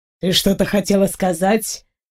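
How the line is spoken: Smirking grunt. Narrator (Russian): хмыкнул он

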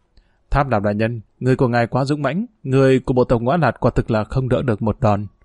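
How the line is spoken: Faint smiling speech. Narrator (Vietnamese): Trên mặt gã còn vương một nụ cười nhạt và nói

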